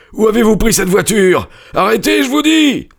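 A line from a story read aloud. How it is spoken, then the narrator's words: Yelled. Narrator (French): hurla-t-il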